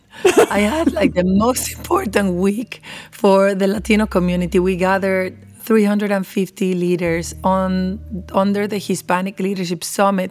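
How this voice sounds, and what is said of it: Hoarse, mostly lost voice. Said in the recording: “where's your voice? ... My voice is gone.”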